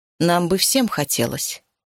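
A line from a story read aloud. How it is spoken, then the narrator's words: Dry reply. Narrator (Russian): сухо ответила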